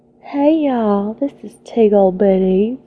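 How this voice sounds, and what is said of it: Put-on sexy Southern belle accent. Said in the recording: “I'm going to try, keyword try, to do a sexy Southern belle... I can't even say my name in a southern accent without laughing.”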